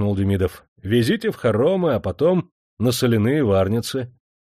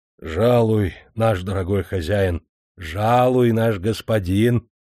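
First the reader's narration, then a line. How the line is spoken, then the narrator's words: Flattering. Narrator (Russian): льстивым тоном заговорил строгановский приказчик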